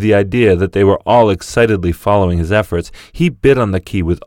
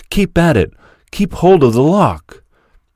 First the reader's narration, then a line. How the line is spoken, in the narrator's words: They should have cried